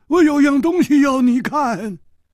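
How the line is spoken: Calling out. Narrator (Chinese): 老实和尚叫住了他

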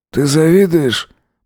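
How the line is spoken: Purring in the ear. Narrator (Russian): мурлыкнул ему на ухо Бен

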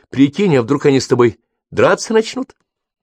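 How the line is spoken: Cheerful. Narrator (Russian): Брук весело сказала

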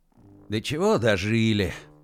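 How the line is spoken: Grumble. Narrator (Russian): пробурчал наш эцелоп

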